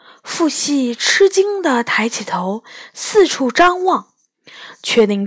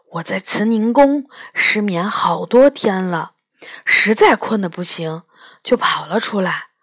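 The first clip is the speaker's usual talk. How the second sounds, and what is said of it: Quiet, hushed voice. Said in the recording (Chinese): “小声地说”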